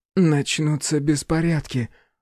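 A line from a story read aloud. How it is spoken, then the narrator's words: Breathless exhale. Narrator (Russian): выдохнула Рейган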